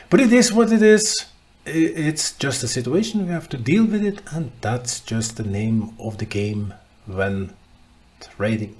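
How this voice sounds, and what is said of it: Slightly rusty, hoarse voice. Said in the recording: “I start this week with COVID and fever, and I'm sorry up front if my voice is a little rusty ... and if I cough during the podcast”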